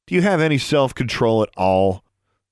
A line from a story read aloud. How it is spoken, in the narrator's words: His tone was very patronizing